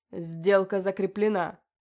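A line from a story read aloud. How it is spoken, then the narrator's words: Growled. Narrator (Russian): прорычал он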